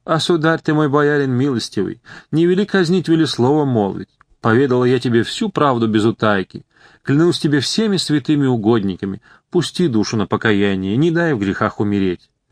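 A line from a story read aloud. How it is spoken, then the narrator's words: Old woman pleading. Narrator (Russian): Взмолилась старушка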